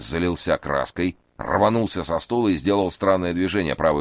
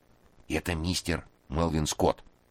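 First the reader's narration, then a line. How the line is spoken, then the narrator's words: Whispered explanation. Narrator (Russian): шепотом пояснил Кузьма Кузьмич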